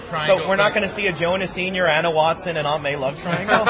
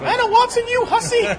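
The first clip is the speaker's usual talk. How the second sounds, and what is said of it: Poor Aunt May impression. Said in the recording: “That is a horrible Aunt May impression”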